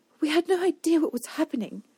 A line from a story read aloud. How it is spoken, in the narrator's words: Denna snapped